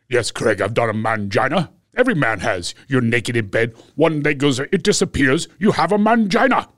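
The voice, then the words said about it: Imitates another person's voice. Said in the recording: “I bet I could do an impression of him ... That is a good impression.”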